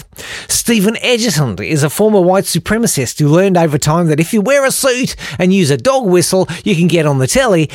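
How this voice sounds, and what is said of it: Put-on accent. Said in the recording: “I cannot maintain this accent anymore”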